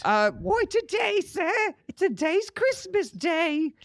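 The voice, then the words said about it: Put-on accent. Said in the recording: “that's a good accent.”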